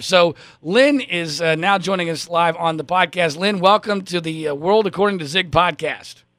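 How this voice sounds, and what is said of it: Hoarse, strained voice. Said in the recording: “my voice is now shot because of a cold I have”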